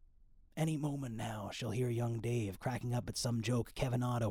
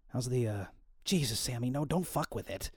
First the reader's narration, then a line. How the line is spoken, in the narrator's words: he snaps